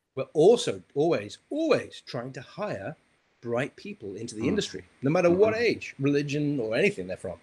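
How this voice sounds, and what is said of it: Noticeable non-native accent. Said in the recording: “funny accent”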